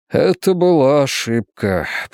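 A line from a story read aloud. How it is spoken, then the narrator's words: Muttering. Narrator (Russian): пробормотал он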